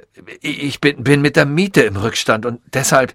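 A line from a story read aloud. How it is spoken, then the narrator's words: Stammered. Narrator (German): stammelte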